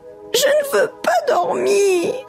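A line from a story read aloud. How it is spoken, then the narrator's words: Whimpering. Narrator (French): pleurniche Brou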